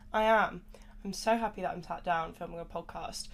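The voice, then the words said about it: Sniffly, congested voice. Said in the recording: “I'm feeling a little bit worse for wear, if you can't tell by my voice. ... I'm still just very sniffly”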